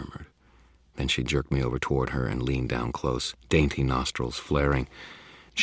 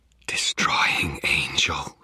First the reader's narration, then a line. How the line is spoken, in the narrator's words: she whispered